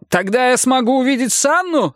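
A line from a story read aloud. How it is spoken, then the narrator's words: Shout. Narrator (Russian): закричал Бьорн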